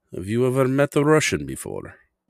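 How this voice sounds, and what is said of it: Put-on Russian accent. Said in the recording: “my accent is a very proud Russian one.”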